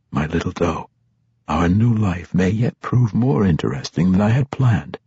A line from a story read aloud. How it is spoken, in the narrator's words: He whispered